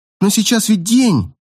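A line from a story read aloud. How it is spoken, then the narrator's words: Exclaiming. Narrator (Russian): воскликнула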